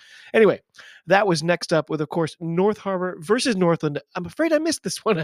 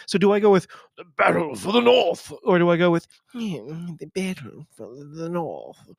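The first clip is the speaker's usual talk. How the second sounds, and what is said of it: Pretentious put-on accent. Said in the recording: “I always want to do like a pretentious accent with that. I can never decide which one.”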